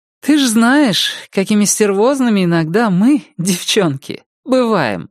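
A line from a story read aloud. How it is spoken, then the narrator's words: Speaking, then laughing. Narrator (Russian): сказала Рози и рассмеялась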